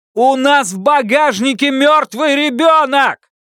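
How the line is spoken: Yelling in her face. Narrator (Russian): Заорал он ей в лицо

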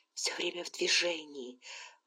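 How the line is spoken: Muttering. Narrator (Russian): пробормотала

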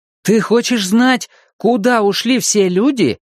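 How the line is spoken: Exclaiming. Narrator (Russian): воскликнул Том

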